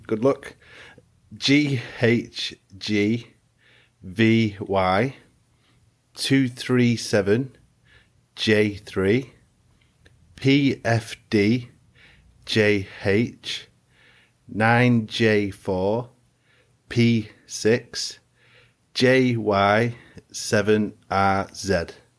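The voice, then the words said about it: Speaks with a noticeable accent. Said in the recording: “if you can understand my accent”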